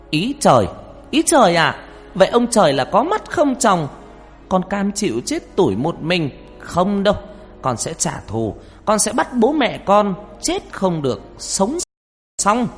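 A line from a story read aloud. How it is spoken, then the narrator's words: Near-shout in quiet night. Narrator (Vietnamese): Con Hoa tiếng nói như hét lên giữa bốn bề đêm vắng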